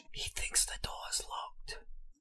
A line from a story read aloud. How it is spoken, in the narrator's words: Harry whispered